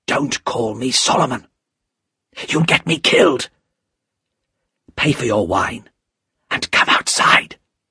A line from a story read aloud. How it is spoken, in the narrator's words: said the man in a low, frightened voice